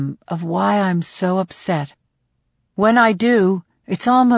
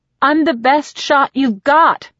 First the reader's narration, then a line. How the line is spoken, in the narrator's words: I shout